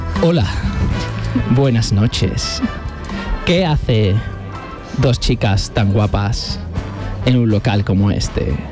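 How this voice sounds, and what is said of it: Sensual, seductive voice. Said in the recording (Spanish): “Voy a poner voz de sensual.”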